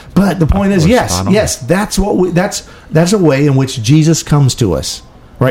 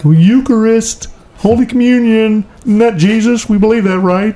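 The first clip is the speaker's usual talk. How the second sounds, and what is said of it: Imitates a typical Catholic person's voice. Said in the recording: “That's my sort of typical person. That's what they all sound like, apparently. ... Bad imitation.”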